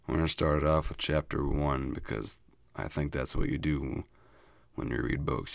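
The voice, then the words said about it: Unusually deep, rough voice. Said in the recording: “my voice sounds a little different today. I got a case of sexy man voice syndrome.”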